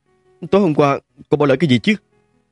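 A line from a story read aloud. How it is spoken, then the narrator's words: Muttering. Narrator (Vietnamese): Lẩm bẩm nói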